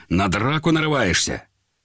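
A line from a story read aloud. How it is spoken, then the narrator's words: Angrily. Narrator (Russian): Он зло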